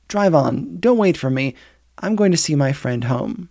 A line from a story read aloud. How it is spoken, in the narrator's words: she said calmly enough